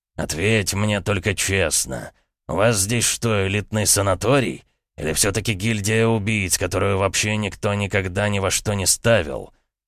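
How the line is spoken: Through gritted teeth. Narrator (Russian): процедил Новак

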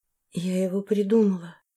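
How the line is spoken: Tearful soft whisper. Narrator (Russian): тихо прошептала, чувствуя, как по щекам до сих пор катятся слезы

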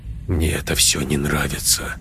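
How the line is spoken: Mumbled. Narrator (Russian): пробормотал он

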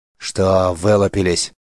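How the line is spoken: Growl. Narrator (Russian): рыкнул он

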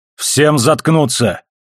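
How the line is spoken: Barked into microphone. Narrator (Russian): рявкнул в микрофон Холден

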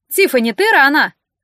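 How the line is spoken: Shout from another room. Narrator (Russian): крикнула мама из кухни

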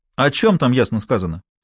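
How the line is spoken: Sharp question. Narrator (Russian): резко спросил голос

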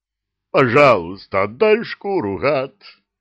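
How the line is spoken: Werewolf's howl. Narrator (Russian): взвыл оборотень

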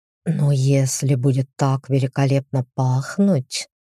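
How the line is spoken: Hot whisper. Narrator (Russian): жарко шепнул он

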